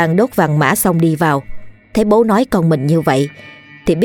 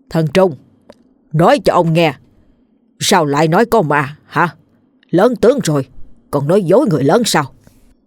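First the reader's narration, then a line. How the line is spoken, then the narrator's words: Stern angry old man. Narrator (Vietnamese): Ông tức tối, mặt nghiêm nghị hỏi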